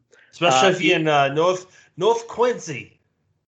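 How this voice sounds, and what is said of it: Poor attempt at Boston accent. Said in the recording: “What accent was that? ... I tried for Boston accent, but like I've been drinking ... that's swing and a miss, sir.”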